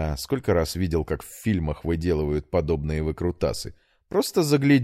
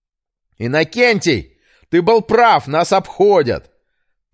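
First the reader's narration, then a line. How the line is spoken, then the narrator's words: Shouting. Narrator (Russian): прокричал Петр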